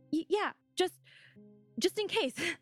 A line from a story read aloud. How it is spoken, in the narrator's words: Jose stammered